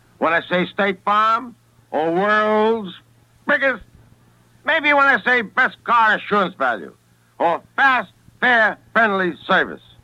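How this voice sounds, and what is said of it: Brooklyn accent. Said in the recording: “a bad Brooklyn accent ... a beautiful Brooklyn accent”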